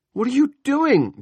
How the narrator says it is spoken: Julia screamed

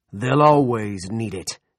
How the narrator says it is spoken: he roared

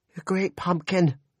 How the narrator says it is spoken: Janelle cried

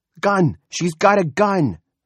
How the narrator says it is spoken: Freddie Denton shouted

